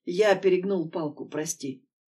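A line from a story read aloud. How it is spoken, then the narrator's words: Quiet. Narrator (Russian): тихо произносит Влад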